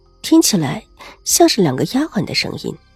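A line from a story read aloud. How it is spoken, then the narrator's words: Teasing, playful. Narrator (Chinese): 另一个声音调笑道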